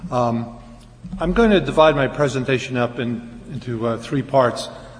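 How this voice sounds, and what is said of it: Slightly hoarse, strained voice. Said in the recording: “losing my voice a little bit”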